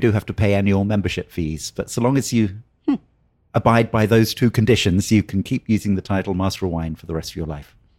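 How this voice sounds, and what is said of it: Posh British English accent. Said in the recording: “Oh, that's the fancy accent... I can tell it's not a fake one. You're definitely not pretending to be British.”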